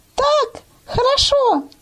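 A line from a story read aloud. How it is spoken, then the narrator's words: Thin little voice. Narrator (Russian): ответила тоненьким голоском Маня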